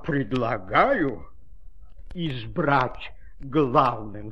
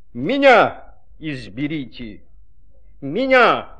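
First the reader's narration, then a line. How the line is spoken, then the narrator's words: Shouting. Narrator (Russian): закричало слово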